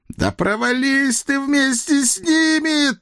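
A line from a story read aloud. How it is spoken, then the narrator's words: High falsetto wail, big man. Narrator (Russian): Тонким фальцетом взвыл здоровяк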